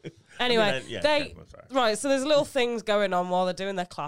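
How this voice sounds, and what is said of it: Usual voice. Nothing is said of it.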